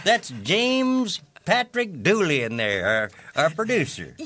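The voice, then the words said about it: Put-on different accent, done well. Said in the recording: “You just said his name with a different accent. ... That's very good. I didn't know you could do that.”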